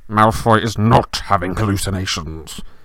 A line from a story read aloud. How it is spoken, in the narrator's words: snarled Snape